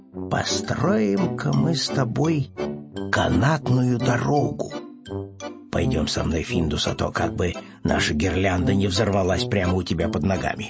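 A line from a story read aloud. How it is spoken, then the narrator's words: Muttering, then speaking. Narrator (Russian): бормотать себе под нос, наконец, сказал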